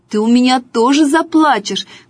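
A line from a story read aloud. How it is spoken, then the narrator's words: Shouting. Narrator (Russian): кричала Катя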